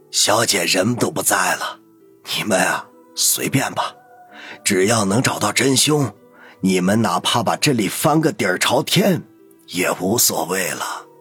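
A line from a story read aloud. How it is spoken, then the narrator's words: Hoarse old voice. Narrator (Chinese): 老管家沙哑着答道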